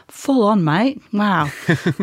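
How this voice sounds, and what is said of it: Put-on Australian accent. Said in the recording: “as Bandit and Chili might say ... I really will stop with the Australian accent now.”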